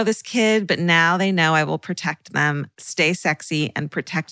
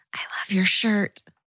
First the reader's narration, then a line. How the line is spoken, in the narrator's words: whispered